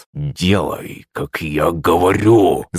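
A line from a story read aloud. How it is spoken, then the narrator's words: Growling. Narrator (Russian): Зарычал князь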